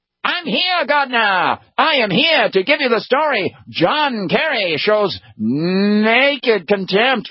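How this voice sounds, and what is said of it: 1930s-40s newsreel announcer voice. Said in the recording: “I try to do a really good impression of him... Newsreel footage guy coming in from the 1930s and 40s”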